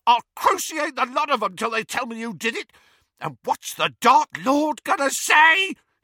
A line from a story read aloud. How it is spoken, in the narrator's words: he shrieked